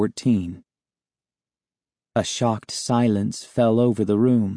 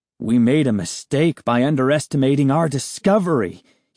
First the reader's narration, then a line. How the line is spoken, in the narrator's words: he exclaimed